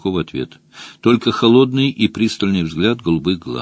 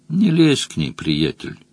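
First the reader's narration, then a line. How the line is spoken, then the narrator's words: Quiet advice. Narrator (Russian): тихо посоветовал Мадж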